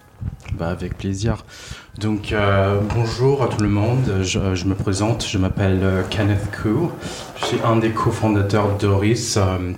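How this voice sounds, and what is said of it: Slight non-native accent in French. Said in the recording (French): “est d'origine canadienne et chinoise. Moi, je trouve que tu parles très bien français, mais tu as un petit accent”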